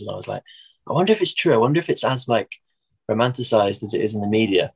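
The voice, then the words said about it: English accent. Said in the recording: “I've never had my accent be like a novelty or like a talking point before... say something English”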